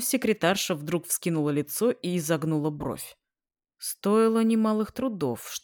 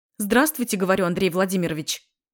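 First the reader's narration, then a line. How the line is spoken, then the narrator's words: Startling loud bark. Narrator (Russian): Рявкнула так, что я невольно вздрогнул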